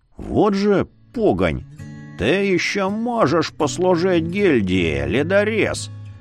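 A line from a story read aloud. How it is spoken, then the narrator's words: Creaky voice. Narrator (Russian): проскрипел ставший невидимым носатый соглядатай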